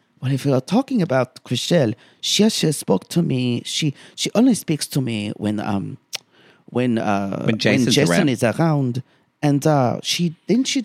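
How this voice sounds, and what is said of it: Put-on French-German accent. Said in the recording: “That sounds French. ... it's a little German. German's more forward. They both have a uvular R. ... It sounded French.”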